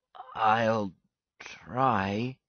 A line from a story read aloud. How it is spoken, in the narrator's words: he said hesitantly